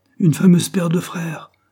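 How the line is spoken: Brusque, heated pained shout. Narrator (French): cria Henry, avec les manières brusques et emportées qui lui étaient habituelles lorsqu'il souffrait

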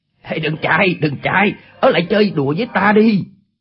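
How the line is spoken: Shouted. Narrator (Vietnamese): Chu Bá Thông quát lên

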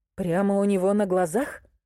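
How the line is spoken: Sighing. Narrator (Russian): Она вздохнула

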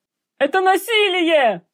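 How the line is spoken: Yelling. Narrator (Russian): орал Ангиан Муско

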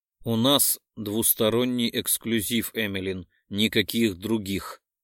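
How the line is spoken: Growled. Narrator (Russian): рыкнул на меня медведь

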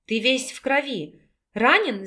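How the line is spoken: Worried young woman's exclamation. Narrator (Russian): с беспокойством воскликнула девушка

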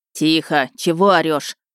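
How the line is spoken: Official barking sharply. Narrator (Russian): рявкнул пристав

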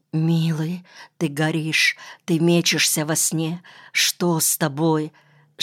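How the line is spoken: Woman whispering. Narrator (Russian): шептала она

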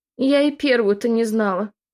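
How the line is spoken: Tearful woman's voice. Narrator (Russian): Плаксивым голосом заметила рыбачка

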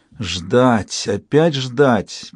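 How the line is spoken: Moaning. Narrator (Russian): простонала Альтия

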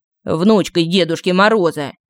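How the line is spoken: Grumbling. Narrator (Russian): пробурчал Иванушка

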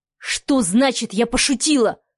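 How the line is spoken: Furious roar. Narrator (Russian): взревел Леха

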